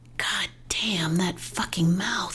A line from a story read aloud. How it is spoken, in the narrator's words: whispered